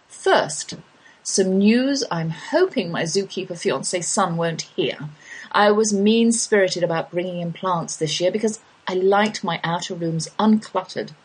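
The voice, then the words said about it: English accent. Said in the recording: “my English drawl”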